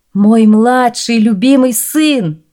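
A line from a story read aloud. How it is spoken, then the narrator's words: Exclamation. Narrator (Russian): воскликнул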